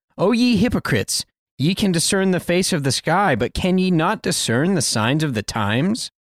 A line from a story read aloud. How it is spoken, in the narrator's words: our Savior sharply chides the Jewish Pharisees